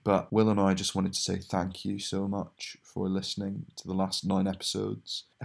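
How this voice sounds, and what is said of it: Low, droning late-night voice. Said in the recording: “It's a wee bit late while I'm recording this, which is why I sound like a humming fridge.”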